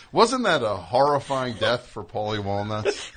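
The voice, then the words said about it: Impression, blend of several voices. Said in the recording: “It's a good amalgam. That's a good impression.”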